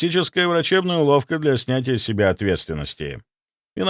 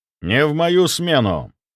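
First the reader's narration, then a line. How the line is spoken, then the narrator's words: Cold, cutting. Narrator (Russian): Мой голос прозвучал холодно, как хирургическая сталь, рассекающая воздух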